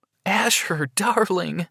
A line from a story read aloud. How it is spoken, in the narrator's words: cried